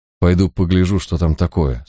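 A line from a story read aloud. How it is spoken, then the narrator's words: Plain. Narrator (Russian): сказал Барак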